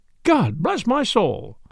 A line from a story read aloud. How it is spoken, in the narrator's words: said a casual passenger, looking up hastily